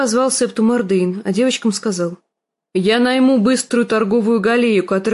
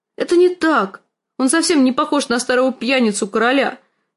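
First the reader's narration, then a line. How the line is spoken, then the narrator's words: Grief-stricken shout. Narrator (Russian): закричала она на сестру, забывшись в своем горе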